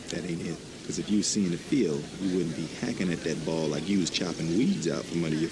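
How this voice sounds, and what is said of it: Poor put-on Southern accent. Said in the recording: “Matt Damon in the movie The Legend of Bagger Vance puts on a terrible Southern accent, but he really is terrible.”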